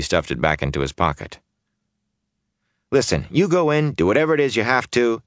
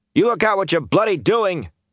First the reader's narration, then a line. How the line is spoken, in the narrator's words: he shouted